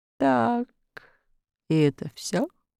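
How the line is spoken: Calm woodcutter asking. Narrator (Russian): спокойно спросил дровосек

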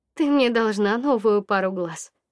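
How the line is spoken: Ringing laugh. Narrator (Russian): Варя звонко рассмеялась

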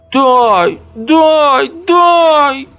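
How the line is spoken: Whining. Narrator (Russian): захныкал он

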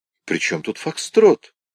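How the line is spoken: Frightened, embarrassed woman. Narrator (Russian): сказала испуганно покраснев дама

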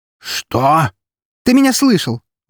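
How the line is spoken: Shouted. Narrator (Russian): выкрикнула она

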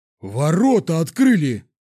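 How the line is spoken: Shouted. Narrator (Russian): закричал первый

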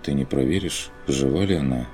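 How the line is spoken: Quiet voice. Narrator (Russian): тихо выговорил Курт

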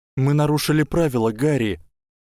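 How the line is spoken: Hoarse. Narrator (Russian): хрипло сказала

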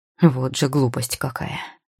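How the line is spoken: Hostile mutter. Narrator (Russian): с неприязнью проворчал себе под нос Теодор

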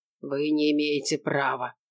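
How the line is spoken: Wheezing. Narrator (Russian): просипел он

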